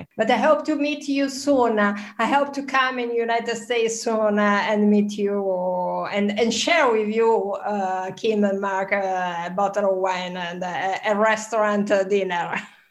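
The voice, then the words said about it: Foreign accent. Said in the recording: “I'm sure everyone's loving the accent here in the United States.”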